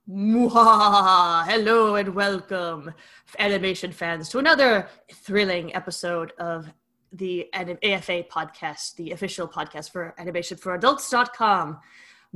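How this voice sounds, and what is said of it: Put-on spooky Halloween voice. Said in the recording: “I'm only going to do that voice for so long ... Halloween voice”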